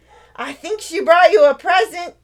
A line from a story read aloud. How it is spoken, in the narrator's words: Lizzie called out